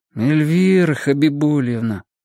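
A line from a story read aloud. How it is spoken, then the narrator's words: Gloomy whine. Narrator (Russian): уныло проныл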